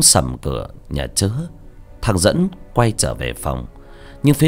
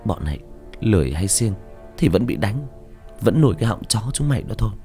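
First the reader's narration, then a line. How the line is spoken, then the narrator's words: Muttered cursing. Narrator (Vietnamese): Con bé Hồng lầm bầm chửi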